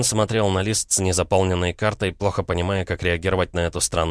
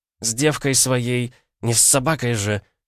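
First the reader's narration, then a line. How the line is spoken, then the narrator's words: Angry hiss. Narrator (Russian): зло прошипела Кристина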